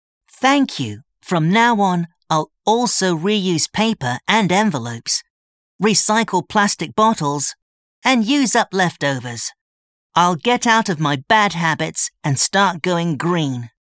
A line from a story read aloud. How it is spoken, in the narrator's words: Chris replied